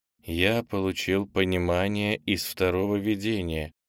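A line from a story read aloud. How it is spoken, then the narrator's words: Quiet. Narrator (Russian): тихо сказал Кенни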